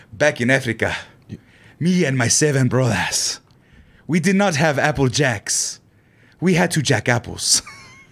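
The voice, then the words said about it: Put-on Nigerian accent. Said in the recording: “that Nigerian accent I picked up from that bit ... it's just like a certain inflection”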